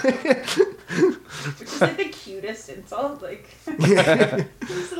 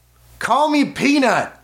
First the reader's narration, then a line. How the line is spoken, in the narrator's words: She hollered at home plate